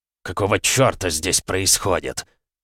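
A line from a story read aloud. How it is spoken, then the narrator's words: Mutter. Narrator (Russian): первым пробормотал Сидзаки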